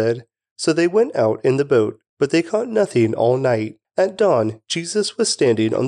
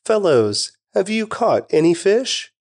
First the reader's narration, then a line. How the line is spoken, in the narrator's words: He called out